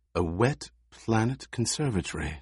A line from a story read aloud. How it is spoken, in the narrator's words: she breathed